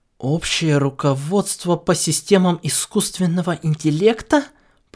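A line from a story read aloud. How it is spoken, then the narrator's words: Muttering to himself. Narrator (Russian): Пробормотал он про себя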